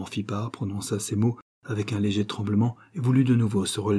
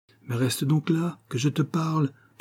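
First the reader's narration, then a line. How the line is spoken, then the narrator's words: Coaxing voice. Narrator (French): fit Rocambole, d'une voix câline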